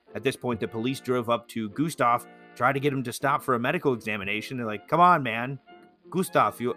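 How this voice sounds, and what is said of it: Usual voice. Nothing is said of it.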